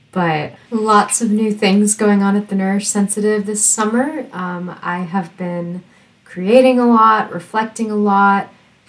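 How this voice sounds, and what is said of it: Nasal, congested voice. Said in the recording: “I also caught COVID towards the end of July ... I'm still not 100%. You might be able to hear it in my voice. I'm kind of nasally.”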